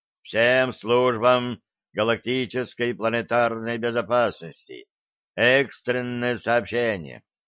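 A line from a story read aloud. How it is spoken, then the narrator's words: Grim broadcast voice. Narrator (Russian): мрачным голосом начала вещать голограмма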